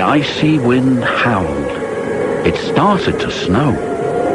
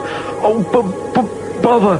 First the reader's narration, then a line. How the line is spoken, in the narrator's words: Percy stuttered, but it didn't sound like Percy